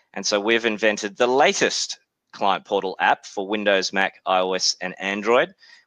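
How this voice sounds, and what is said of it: Australian accent. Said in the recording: “As you can tell from my accent, I'm obviously from Australia, but was born in New Zealand”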